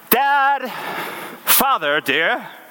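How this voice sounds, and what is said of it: Put-on accent. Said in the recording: “I have no idea where that accent came from.”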